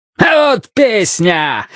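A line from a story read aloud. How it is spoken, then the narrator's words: Yelling. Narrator (Russian): заорал Ван Ганди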